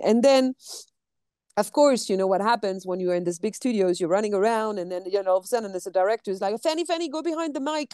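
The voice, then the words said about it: French accent in English. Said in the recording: “you're going to hear my French accent”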